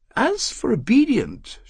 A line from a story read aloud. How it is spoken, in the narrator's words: she said in her high, clear voice